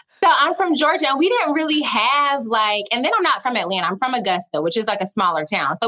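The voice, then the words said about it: Southern Georgia twang. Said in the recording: “I'm from Georgia. Y'all will probably hear the twang um, at multiple points.”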